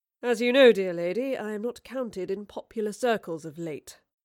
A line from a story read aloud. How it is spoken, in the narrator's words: Marlowe sighed